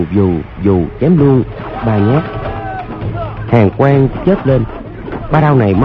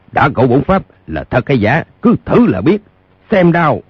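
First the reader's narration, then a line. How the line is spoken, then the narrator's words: Hot-tempered elder shouting. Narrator (Vietnamese): Lương trưởng lão tính tình nóng nảy quát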